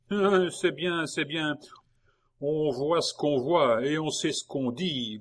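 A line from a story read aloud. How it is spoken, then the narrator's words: Grumbling. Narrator (French): grogna Simon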